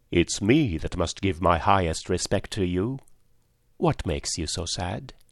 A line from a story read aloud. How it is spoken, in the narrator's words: The rainbow, giving a deep sigh, and said